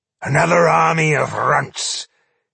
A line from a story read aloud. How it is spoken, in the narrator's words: he growled